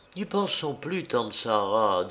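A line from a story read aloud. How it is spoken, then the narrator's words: Low, soft voice. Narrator (French): dit-elle d'une voix basse et douce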